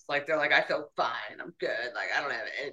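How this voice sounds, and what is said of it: Imitates another person's voice. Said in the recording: “mimicking me ... I'm mimicking my clients”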